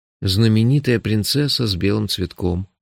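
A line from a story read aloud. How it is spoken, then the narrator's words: Sighing. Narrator (Russian): вздохнул я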